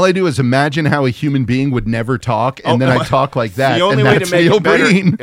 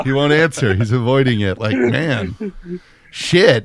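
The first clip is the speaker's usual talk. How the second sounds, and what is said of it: Imitates another person's voice. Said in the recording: “That's a pretty good impersonation of Breen. That's pretty good.”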